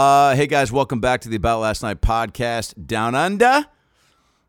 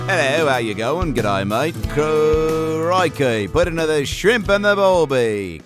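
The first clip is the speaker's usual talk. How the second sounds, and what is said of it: Put-on Australian accent. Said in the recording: “Can you tell I'm in Australia? Can you tell I've nailed the accent?”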